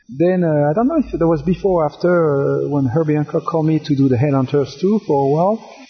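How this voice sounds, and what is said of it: Strong French accent in English. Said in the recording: “Because of my accent ... my accent is strong. He had trouble understanding me as well.”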